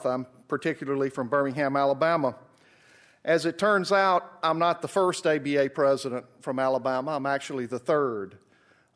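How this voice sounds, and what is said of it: Southern US accent. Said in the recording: “As you can tell from my accent, I'm from the South.”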